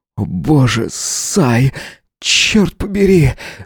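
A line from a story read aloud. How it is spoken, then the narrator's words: Restrained mindless moan. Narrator (Russian): Бездумно простонал, сдерживаясь изо всех сил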